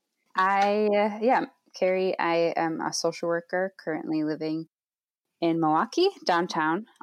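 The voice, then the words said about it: Speaks with a foreign accent. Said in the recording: “how endearing your accent is”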